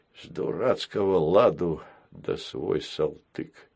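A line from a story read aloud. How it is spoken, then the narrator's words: Angry grumbling. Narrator (Russian): гневно проворчал Баюн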